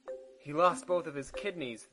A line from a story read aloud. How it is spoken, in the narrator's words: nurse exclaimed